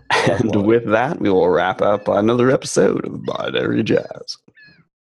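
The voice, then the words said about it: Eerie dramatic announcer voice. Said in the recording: “my announcer voice? ... It's like a touch Vincent Price. ... it was a bit disconcerting.”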